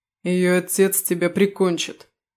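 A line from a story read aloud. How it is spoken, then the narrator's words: Angry growl. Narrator (Russian): сжав кулаки, прорычал Даррис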